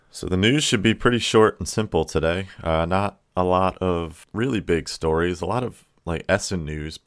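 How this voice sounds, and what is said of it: Unusually deep, worn voice. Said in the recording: “Ooh, that was deep today ... I had a wedding this weekend ... my voice is a little.”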